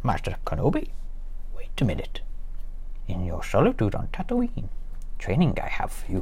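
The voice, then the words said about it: Poor Yoda impression. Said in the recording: “I really can't do Yoda ... I do apologise for the appalling Yoda impression”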